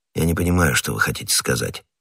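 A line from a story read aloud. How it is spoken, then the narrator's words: Calm. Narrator (Russian): спокойно ответил Фельтон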